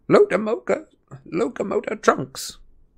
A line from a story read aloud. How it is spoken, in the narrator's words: Professor Flitwick went scurrying after them, squeaking